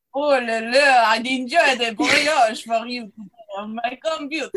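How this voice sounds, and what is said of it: Put-on French accent. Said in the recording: “Please affect a French accent.”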